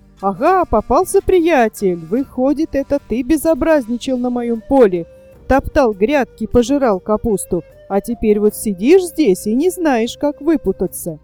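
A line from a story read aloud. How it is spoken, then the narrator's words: Joyful shout. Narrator (Russian): от радости ... закричал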